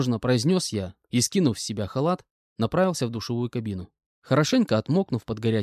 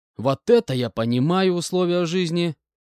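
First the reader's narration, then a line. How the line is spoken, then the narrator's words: Loud speech. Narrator (Russian): Громко сказал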